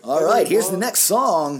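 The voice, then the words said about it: Cheesy radio DJ voice. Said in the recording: “That was my radio DJ voice.”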